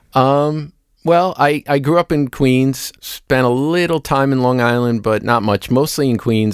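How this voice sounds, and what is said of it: Queens New York accent. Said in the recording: “you're from Queens ... your accent”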